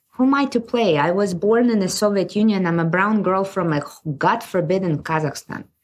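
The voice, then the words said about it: Non-native English accent. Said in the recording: “I barely speak English. You can hear my accent.”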